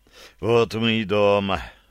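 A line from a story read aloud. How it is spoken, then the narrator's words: Relieved sigh. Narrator (Russian): вздохнул с облегчением Вилко Шлинденау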